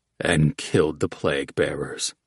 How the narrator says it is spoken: Oats muttered

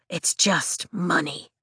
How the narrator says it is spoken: he whispers from his knees

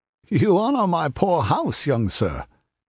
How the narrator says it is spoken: he laughed coolly

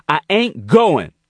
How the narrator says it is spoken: he yelled at Queen

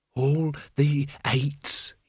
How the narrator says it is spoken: he breathed

